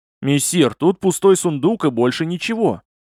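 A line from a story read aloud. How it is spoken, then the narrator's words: Shouted from another room. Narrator (Russian): крикнул из комнаты Вершан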